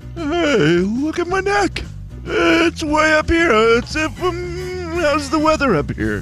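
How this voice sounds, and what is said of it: Comic giraffe character voice. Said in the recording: “your giraffe impression ... That's a great giraffe.”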